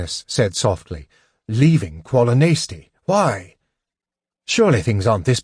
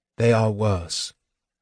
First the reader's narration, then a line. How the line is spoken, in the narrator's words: Gilthanas said sadly